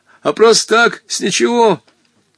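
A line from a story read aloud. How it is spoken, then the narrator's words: Pitiful voice. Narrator (Russian): Жалостным голосом начал Гога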